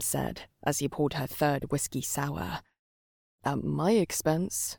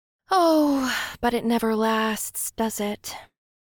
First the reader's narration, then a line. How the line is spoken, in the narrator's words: She replied with a mock sigh